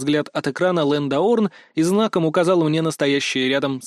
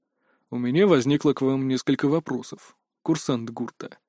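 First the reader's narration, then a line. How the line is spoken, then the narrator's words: Calm. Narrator (Russian): спокойным голосом сообщил директор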